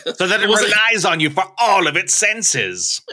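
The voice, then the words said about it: Fancy sinister villain voice. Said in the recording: “It wasn't Hannibal Lecter. I don't know why you're doing this voice. ... That's why I was summoning my Hannibal Lecter. ... It's fancy, but not ethnically specific.”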